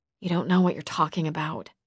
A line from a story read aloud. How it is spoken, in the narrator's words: I mumbled